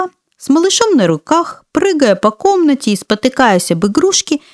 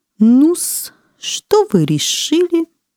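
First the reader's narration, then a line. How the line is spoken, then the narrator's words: Purring. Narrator (Russian): промурлыкал доктор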